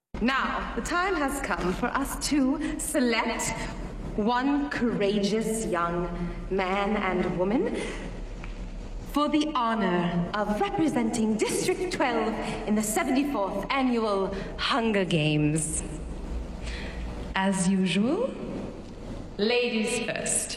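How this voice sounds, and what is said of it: Unplaceable, not-quite-American accent. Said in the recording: “not quite American ... You couldn't really pick exactly where that accent was from”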